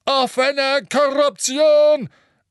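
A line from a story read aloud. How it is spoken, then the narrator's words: Booming. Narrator (German): donnerte das Porträt des beleibten, rotnasigen Zauberers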